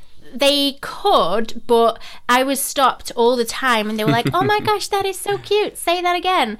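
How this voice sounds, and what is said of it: Slight Yorkshire accent. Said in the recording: “you've got a little bit of a Yorkshire twang”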